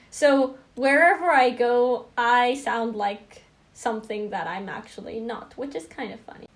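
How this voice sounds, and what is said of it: Distinct accent between British and American. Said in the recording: “my pronunciation is pretty distinct. A lot of Americans think I have a British accent, and then a lot of British people think I have an American accent.”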